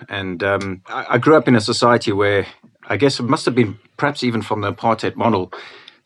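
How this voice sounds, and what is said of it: South African accent. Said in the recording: “you can tell from my accent that I wasn't born in the UK. I was born in Cape Town.”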